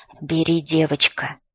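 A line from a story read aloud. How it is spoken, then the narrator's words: Plain. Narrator (Russian): сказал князь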